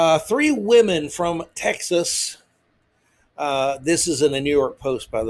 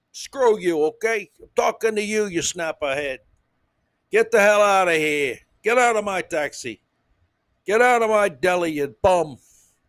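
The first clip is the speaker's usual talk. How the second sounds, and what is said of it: Grating put-on New York accent. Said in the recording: “those uh, wonderful New York people ... completely grating, obnoxious accent”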